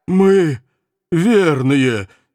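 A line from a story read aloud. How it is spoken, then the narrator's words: Hoarse, strained. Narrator (Russian): сипло выдавил кто-то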